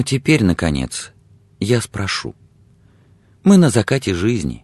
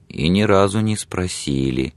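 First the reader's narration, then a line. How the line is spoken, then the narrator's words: Grateful mutter. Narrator (Russian): благодарно пробормотала Белла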